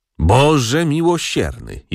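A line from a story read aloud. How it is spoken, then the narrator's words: Aunt's groan. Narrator (Polish): jęknęła ciotka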